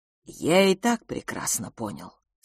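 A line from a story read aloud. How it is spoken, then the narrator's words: Calm. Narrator (Russian): сказал он спокойно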